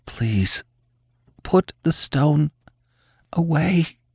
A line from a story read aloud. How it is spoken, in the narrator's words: she gasped, her lungs aching